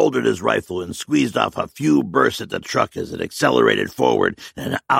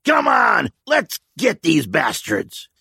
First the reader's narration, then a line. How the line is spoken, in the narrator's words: Al shouted angrily to the men